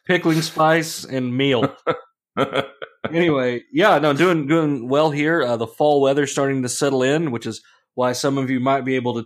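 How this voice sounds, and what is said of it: Sick, congested voice. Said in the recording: “tell by my voice ... I'm enjoying the usual change of the seasons crud that's going around here”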